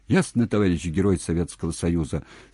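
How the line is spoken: Plain. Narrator (Russian): ответил Алик

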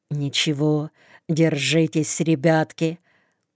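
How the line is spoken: Quiet wry smile. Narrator (Russian): Кравцов чуть скривив губы в улыбке, тихо говорит

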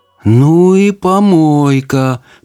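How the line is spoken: Drawled. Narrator (Russian): протянула она

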